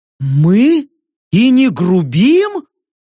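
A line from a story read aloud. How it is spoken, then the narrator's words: Mocking exclamation. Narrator (Russian): с нескрываемой насмешкой воскликнула Йорка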